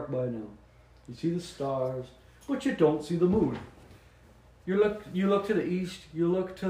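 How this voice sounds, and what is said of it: Usual voice. Nothing is said of it.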